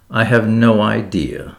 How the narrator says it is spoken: said the girl coldly

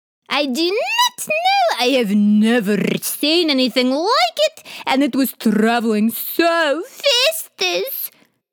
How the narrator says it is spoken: Khawler yelped

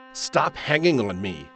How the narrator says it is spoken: she snapped loudly

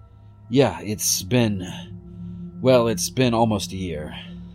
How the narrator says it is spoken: sighed

